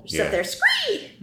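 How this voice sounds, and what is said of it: Imitates a hawk's screech. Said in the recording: “That's what they sound like. ... It's a really good imitation. ... that was not actually a blood-tailed hawk in the room with us. Red-tailed hawk”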